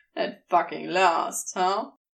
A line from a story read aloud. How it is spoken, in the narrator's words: Aziraphale chuckled